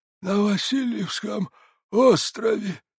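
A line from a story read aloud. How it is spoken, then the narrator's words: Hoarse old man. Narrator (Russian): хрипел старик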